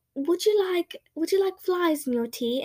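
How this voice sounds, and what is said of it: Put-on British accent. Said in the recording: “I said that with a British accent. I just imagined Froggy with a British accent.”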